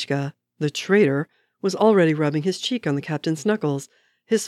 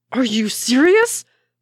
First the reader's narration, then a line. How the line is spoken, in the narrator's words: Bucky yelled